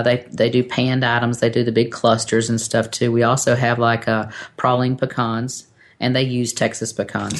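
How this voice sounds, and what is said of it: East Coast American accent. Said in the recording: “you have an accent ... from Northeast. East Coast.”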